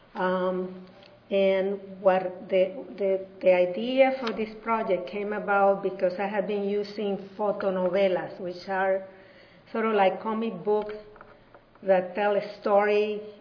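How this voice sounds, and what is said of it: Hispanic accent in English. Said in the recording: “As you can tell from my accent, I am Hispanic.”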